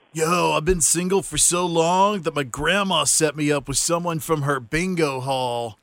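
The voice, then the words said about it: Stoner voice like Bill and Ted. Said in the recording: “look past the sickness and see if you can figure out his accent ... He sounds like Bill and Ted's Excellent Adventure, a druggie. ... He was a stoner.”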